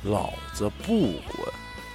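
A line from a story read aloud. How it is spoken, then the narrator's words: Low, sinister voice. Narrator (Chinese): 皱着眉头，嘴角上扬，带着邪气，低声对她说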